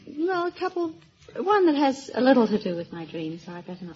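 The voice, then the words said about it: Light English accent. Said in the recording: “a little British accent there, a little English accent? ... That's right, London, England.”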